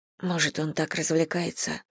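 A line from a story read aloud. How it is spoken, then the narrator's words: Muttered. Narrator (Russian): пробормотала Элли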